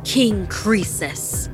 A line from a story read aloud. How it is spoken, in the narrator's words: Anaya screamed so loud her chest burned